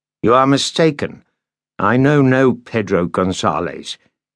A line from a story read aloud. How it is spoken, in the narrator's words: Landon said harshly